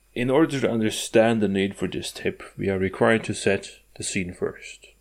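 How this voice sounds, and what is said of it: Scandinavian accent. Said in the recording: “my Scandinavian accent is distracting”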